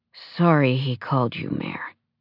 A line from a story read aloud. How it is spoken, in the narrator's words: Clark murmured